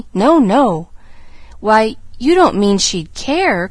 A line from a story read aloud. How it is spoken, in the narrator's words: cried Pollyanna, plainly disturbed